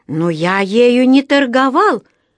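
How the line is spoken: Exclamation. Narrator (Russian): воскликнул Паддингтон

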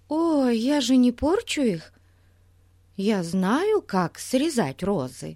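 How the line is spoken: Timid, defensive. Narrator (Russian): Робко защищалась мисс Трэмбл

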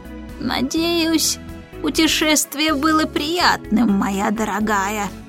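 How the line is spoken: Creaky voice. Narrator (Russian): проскрипел он

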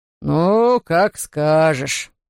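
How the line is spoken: Deep booming male voice. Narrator (Russian): прогудел мужчина

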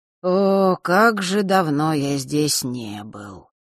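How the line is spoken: Regretful drawl. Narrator (Russian): с некоторым сожалением протянул светловолосый

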